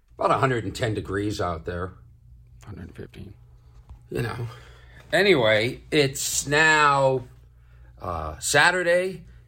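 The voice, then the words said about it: Tired-sounding voice. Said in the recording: “Can hear how tired my voice is.”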